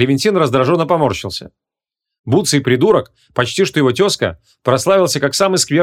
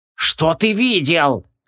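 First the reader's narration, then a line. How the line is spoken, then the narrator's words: Menacing hiss. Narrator (Russian): прошипел Клевентин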